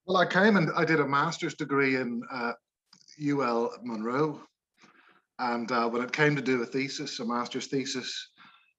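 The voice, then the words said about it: Northern Irish accent. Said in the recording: “Here we have a genuine Northern Ireland accent”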